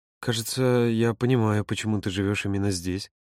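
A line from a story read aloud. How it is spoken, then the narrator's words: Quiet. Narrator (Russian): негромко произнес он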